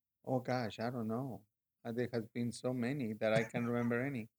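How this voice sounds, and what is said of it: Peruvian-accented English. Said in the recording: “you've got a beautiful Peruvian accent”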